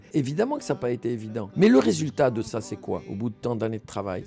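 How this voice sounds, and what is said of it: Tunisian accent in French. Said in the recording (French): “cet accent qui est si présent ... vous jouez beaucoup de cet accent euh, tunisien”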